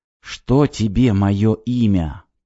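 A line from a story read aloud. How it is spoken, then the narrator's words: Whisper. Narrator (Russian): прошептала она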